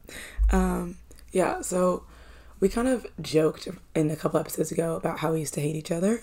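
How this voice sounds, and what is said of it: Hoarse, strained voice. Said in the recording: “a slightly less nice sounding voice ... I can't even scream. I was screaming too much over the weekend ... now I sound a little bit scary ... It sounds so horrible.”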